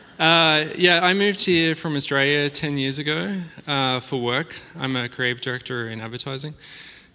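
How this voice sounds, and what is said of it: Australian accent. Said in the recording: “super neat accent ... that cool accent ... If that doesn't tell you where I'm from”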